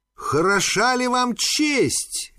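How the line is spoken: Exclamation. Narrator (Russian): воскликнула

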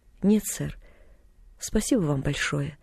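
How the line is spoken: Quiet reply. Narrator (Russian): тихо ответила

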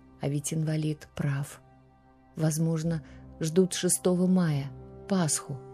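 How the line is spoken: Quiet aunt. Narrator (Russian): тетя тихо мне сказала

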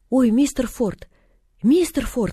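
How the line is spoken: Frightened shout. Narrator (Russian): испуганно закричала

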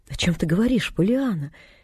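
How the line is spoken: Very gentle interruption. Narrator (Russian): очень ласково перебил он ее

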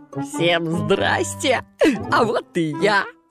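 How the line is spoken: Laughing monster. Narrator (Russian): засмеялось чудовище

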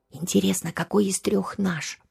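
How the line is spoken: Whisper in ear. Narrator (Russian): прошептала ему на ухо сестра

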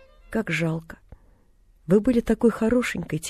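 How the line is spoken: Quiet. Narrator (Russian): тихо проговорила Полиана

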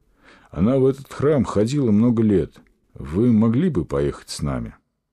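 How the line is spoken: Sighing. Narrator (Russian): вздохнул

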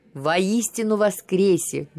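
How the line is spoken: Loud affirmation. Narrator (Russian): громко подтвердил свою веру Алексей

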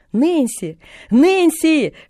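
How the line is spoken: Shouting at full strength, moving. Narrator (Russian): что было мочи, кричала она на ходу

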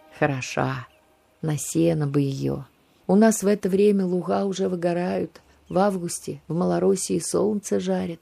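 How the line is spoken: Wistful homesick sigh. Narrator (Russian): вздохнул он о доме

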